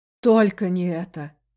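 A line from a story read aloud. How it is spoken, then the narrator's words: Groaning. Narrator (Russian): простонал мой спутник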